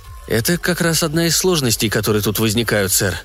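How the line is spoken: Level, even voice. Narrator (Russian): ровным голосом произнес Фредди

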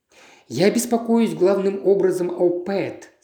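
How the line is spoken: Plain. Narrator (Russian): сказал Джимми

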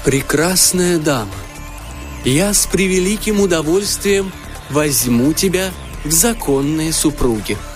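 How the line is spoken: Solemn promise. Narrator (Russian): Торжественно пообещал он

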